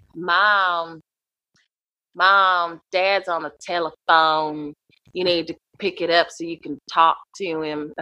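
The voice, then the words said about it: Put-on Southern Tennessee accent. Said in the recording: “I have a lot of family from Tennessee, so I learned to do that accent just to make fun of them.”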